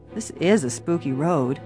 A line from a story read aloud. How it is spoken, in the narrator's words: George murmured presently